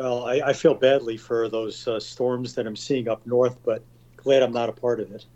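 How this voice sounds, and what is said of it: New York accent. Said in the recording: “You can tell from my New York accent.”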